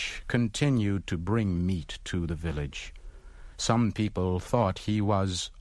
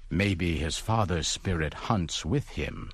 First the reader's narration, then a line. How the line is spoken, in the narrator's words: said another